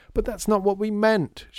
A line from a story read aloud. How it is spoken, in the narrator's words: shouted Lydia